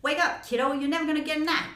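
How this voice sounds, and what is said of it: Put-on Chicago accent. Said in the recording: “In a Chicago accent, I guess.”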